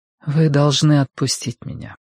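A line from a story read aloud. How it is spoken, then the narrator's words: Said softly. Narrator (Russian): мягко сказала Цзянь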